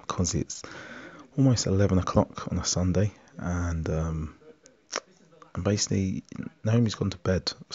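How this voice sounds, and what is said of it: Speaking very quietly. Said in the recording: “why are you talking so quietly?”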